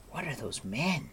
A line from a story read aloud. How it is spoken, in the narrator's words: Terran whispered